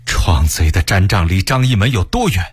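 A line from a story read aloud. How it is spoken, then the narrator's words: Angry question. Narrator (Chinese): 他愤怒地问道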